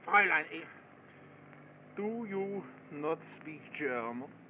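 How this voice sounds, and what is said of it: Phony German accent. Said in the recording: “Why don't you drop that phony accent?”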